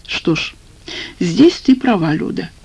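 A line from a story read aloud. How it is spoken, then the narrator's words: Heavy sigh. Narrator (Russian): тяжело вздохнул Грязнов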